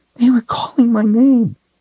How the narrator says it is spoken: Siddon whimpered

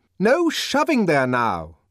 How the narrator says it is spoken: shouted the deputy sub-bursar in a fury

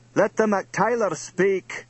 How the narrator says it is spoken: the big and lordly chief of Clan Fergus bellowed at the throng

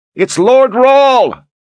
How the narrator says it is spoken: Voices carried the shout back through the horde of Dharan troops

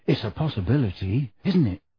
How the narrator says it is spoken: said Harry, dropping his voice

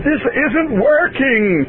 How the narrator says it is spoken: Maya screamed

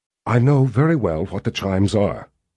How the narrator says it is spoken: Richard said in a near whisper

